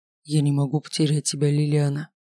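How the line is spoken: Whisper. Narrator (Russian): прошептал

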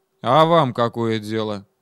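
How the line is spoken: Gloomy question. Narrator (Russian): мрачно спросил младший сержант

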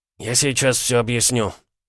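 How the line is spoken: Exhaled. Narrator (Russian): выдохнул Строганов, падая в кресло

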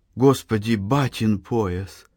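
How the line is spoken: Frightened whisper. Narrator (Russian): Анна с испугом прошептала

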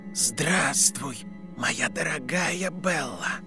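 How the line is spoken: Icy whisper. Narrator (Russian): произнес ледяной шепот

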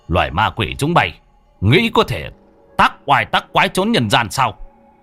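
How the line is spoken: Loud mocking laugh. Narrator (Vietnamese): Thầy cười to

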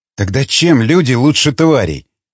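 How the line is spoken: Sigh. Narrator (Russian): вздохнула Сабрина

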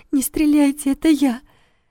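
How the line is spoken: Trembling plea. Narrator (Russian): Федорова дрожащим голосом попросила

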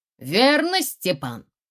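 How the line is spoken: Loud. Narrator (Russian): громко говорит с места Чуркин

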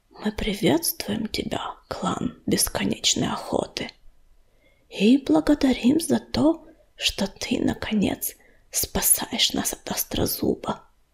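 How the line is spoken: Whisper, chieftain. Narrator (Russian): вождь клана прошептал

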